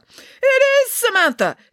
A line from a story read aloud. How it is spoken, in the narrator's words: exclaimed Nanny Piggins